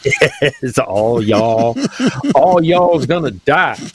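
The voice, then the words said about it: Put-on Southern US accent. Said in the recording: “Your southern accent's getting better and better all the time.”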